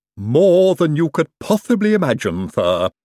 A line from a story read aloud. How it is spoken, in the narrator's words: said Igor happily